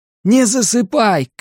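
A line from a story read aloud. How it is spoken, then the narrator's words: Shout. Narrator (Russian): крикнул я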